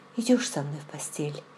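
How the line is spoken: Asked quietly. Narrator (Russian): тихо спросила

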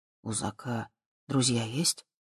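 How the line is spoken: Quiet question. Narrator (Russian): тихо спросил Боб

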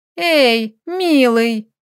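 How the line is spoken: Teasing, disguised voice. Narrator (Russian): исказив голос, поддразнила мужа хохотнула

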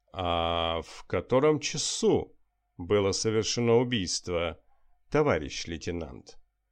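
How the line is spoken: Insinuating question. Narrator (Russian): вкрадчиво переспросил он

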